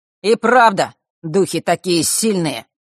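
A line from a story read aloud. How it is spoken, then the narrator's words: Sudden loud ringing voice. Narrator (Russian): неожиданно громко и сильно прозвенел голос Фэша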